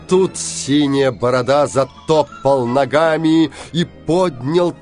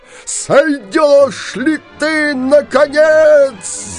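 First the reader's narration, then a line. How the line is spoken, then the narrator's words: Yelling. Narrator (Russian): завопил синяя борода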